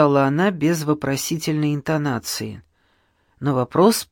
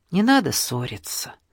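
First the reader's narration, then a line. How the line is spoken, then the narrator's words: Soft speech. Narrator (Russian): мягко сказала Анечка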